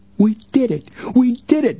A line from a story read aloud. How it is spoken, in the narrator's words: Joe cried out jubilantly